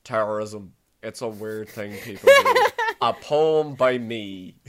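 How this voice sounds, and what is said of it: Poor imitation of another person's voice. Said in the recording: “Sylvester Stallone. I'm very bad at accents... Super bad. They all sound the same.”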